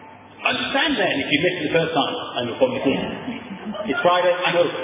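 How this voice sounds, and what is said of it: Usual voice. Nothing is said of it.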